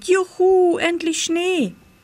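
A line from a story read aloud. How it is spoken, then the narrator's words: Excited shout. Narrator (German): rief Pitt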